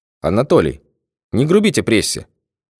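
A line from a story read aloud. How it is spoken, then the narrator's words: Cold warning. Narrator (Russian): холодно предостерег спецкор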